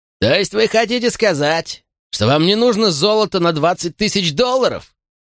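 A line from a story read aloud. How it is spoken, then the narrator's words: Shout from cave mouth. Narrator (Russian): выкрикнул из зева пещеры Оллериншоу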